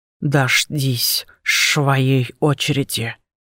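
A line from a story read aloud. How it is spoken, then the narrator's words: Lisping. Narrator (Russian): прошепелявил он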